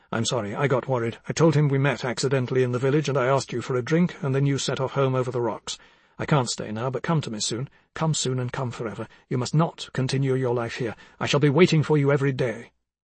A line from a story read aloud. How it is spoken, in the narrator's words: I said very quickly, but distinctly, in a low voice